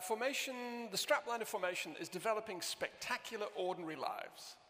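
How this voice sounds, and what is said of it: Lancashire accent with Canadian influence. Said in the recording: “account for your accent then ... My accent is, I was brought up in Lancashire, in Southport in Lancashire ... I married a Canadian, and I'm very easily influenced”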